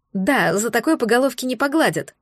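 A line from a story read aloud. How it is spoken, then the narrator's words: Snorted. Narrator (Russian): фыркнула девушка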